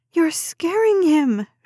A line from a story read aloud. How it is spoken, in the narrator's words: she yelled